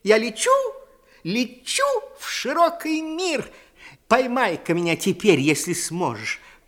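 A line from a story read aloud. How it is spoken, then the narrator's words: Tiny squeak. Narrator (Russian): пискнула горошинка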